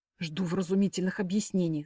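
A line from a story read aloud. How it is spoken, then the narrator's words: Hissed like angry cat. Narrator (Russian): зашипела я, как рассерженная кошка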